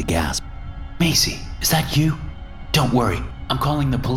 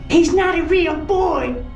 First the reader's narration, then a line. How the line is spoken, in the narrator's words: Macy shrieked through the thick metal